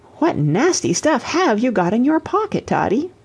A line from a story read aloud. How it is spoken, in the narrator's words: exclaiming